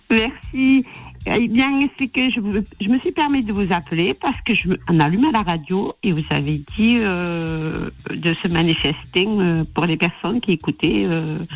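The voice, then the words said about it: Slight Toulouse regional French accent. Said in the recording (French): “avec le petit accent de Toulouse qui fait plaisir”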